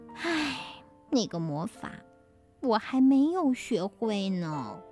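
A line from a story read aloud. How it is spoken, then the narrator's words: Heavy weary sigh. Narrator (Chinese): 绿女巫念完了一千零一遍的咒语之后，重重的叹了口气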